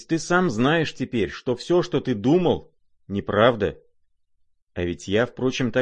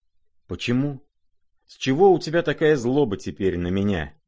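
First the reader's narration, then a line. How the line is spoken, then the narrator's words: Sad and fervent. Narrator (Russian): грустно и с жаром подхватил князь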